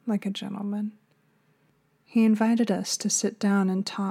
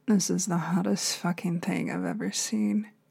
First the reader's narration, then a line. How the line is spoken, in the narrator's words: Evan muttered